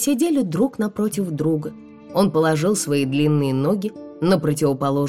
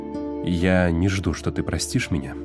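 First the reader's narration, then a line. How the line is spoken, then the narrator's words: Quiet. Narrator (Russian): тихо сказал Уит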